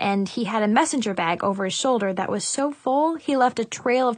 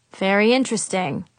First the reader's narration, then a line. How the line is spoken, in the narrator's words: said dryly